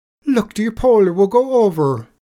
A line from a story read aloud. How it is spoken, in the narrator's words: The leprechaun cries out